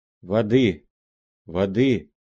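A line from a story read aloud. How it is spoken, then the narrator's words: Hoarse. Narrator (Russian): говорила она хриплым голосом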